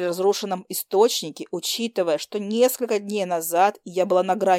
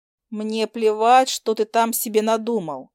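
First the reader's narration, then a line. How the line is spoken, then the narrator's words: Deliberately rude retort. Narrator (Russian): Специально грубо парировала я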